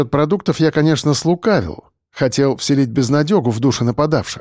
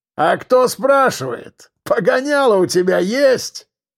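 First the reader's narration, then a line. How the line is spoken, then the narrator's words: Hoarse smirk. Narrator (Russian): хрипло усмехнулся он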